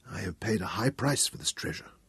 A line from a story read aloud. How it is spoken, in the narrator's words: he murmured